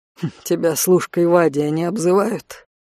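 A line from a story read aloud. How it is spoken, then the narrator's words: Amused snort. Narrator (Russian): хмыкнул Конт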